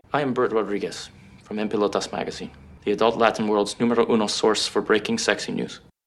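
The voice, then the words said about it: Exaggerated Latin accent, badly done. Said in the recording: “Joseph Gordon-Levitt's character. First of all, the accent was atrocious and offensive.”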